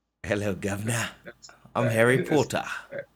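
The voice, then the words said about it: Poor put-on British accent. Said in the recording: “I got bad accents. My accent game is not strong. ... That's horrible.”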